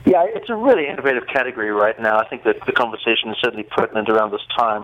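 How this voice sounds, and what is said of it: South African accent. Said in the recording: “Where in the world does that accent originate ... People always think Australia, New Zealand. I'm actually South African. ... That's a unique accent.”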